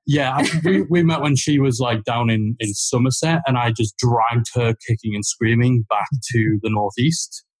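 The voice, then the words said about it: Geordie accent. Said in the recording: “another set of Geordie voices”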